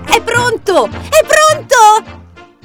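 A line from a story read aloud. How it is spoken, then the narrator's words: Shouted. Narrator (Italian): gridò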